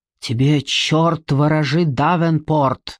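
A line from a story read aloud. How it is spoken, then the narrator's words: Through gritted teeth. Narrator (Russian): сквозь зубы процедил Преснелл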